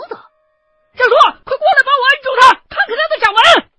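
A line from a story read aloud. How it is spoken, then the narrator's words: Loud shout. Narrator (Chinese): 其中的一个人影大喊了一声我的名字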